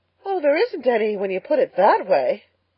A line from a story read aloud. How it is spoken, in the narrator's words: gasped Anne, rather as if somebody had thrown cold water over her